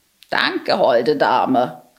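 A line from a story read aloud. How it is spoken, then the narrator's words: Croaking crow. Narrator (German): krächzte die Krähe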